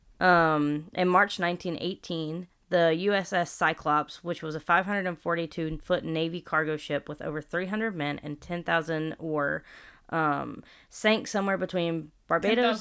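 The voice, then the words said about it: Southern American accent. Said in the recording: “I got that southern accent.”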